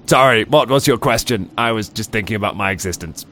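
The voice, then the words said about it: Robot character voice. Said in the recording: “I'm still doing a robot voice for it”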